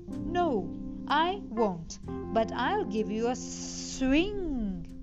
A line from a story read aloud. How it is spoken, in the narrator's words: hissed the snake